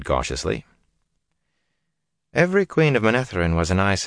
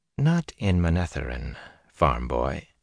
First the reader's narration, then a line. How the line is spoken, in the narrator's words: she said calmly